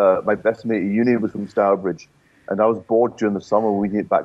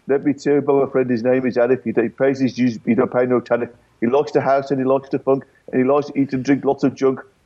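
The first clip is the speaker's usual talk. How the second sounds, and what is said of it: Put-on Stourbridge Black Country accent. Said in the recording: “I did a rap in the Stourbridge accent.”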